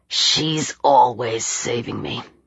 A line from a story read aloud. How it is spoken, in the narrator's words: he said bitterly